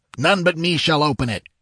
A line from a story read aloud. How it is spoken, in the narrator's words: he cried